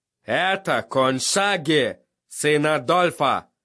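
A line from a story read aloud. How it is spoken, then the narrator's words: Growl. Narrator (Russian): рыкнул он на мальчишку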